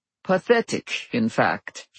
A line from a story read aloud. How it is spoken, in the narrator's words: he said dryly